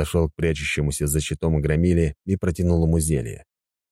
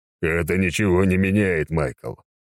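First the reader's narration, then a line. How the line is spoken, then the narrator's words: Hollow muffled voice. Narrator (Russian): произнес глухим голосом Сигизмунд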